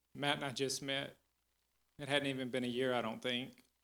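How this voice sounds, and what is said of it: Choked-up, emotional voice. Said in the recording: “I don't know if I'm going to be able to do this without getting choked up.”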